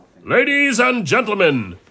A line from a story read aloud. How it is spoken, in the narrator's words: boomed a male voice from offstage